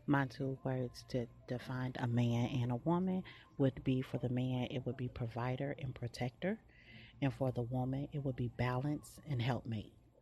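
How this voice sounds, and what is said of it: Whispering. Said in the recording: “I'm whispering because I'm at work”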